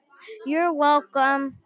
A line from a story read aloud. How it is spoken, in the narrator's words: with a whisper voice